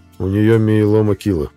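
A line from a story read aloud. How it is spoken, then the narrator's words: Plain. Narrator (Russian): ответил Мэл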